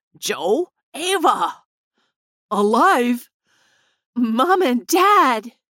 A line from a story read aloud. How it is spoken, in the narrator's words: Grandpa Nick and Tess cried out